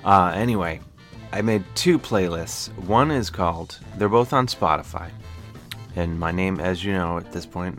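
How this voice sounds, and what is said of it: Midwestern accent, low humming voice. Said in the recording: “my Midwestern accent that operates in my voice that is like the hum of a college refrigerator”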